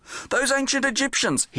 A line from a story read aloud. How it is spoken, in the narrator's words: he shouted to Doris